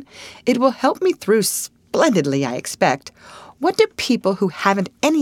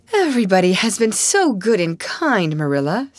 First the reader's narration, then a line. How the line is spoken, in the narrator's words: sighed Anne happily